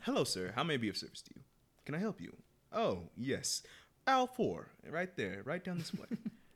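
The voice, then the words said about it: Customer service voice. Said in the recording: “Customer service voice.”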